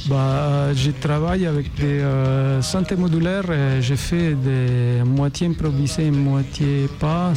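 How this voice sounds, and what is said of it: French with Italian accent. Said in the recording (French): “c'est un très bel accent italien ... Salerno, c'est au sud de Naples.”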